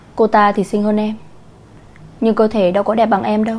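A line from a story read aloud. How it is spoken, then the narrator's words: Annoyed woman. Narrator (Vietnamese): Người phụ nữ nói với vẻ bực bội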